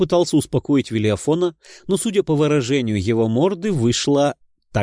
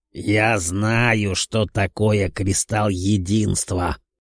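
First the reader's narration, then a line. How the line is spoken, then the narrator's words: Rude interruption. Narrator (Russian): Демон меня грубо оборвал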